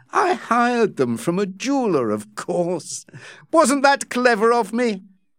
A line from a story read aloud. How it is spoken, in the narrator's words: Becky laughed and said